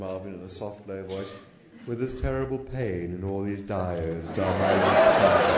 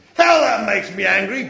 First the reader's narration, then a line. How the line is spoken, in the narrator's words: bellowed the machine